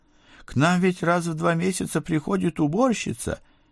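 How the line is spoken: Frightened squeak. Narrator (Russian): попытался пискнуть побледневший капрал

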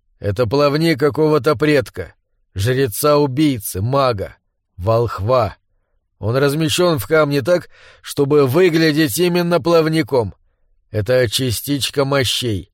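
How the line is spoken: Plain. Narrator (Russian): сказал Доул

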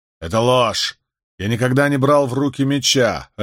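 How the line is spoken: Snapped. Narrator (Russian): огрызнулся Джардам

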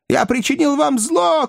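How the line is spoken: Old man shouting. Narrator (Russian): кричал старик

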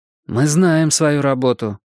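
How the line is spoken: Irritated interruption. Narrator (Russian): раздраженно прервала ее Мия

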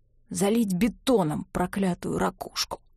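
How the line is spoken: Hoarse. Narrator (Russian): хрипло отозвался другой

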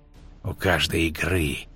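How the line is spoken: Hiss through clenched teeth. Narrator (Russian): прошипел он сквозь стиснутые зубы

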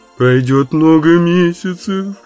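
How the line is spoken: Sobbing. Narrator (Russian): рыдала Слайти

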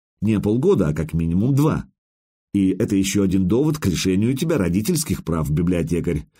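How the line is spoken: Plain. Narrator (Russian): сказал я

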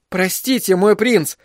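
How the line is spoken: Frightened exclamation. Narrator (Russian): воскликнул Бен, побледнев

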